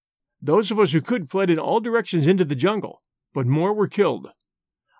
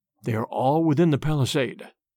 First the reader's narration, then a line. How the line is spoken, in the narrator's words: he whispered